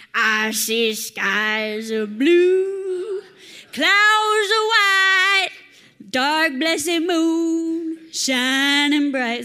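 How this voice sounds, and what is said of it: Imitates another person's singing voice. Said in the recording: “Is that a good Louis impression? ... B minus at best.”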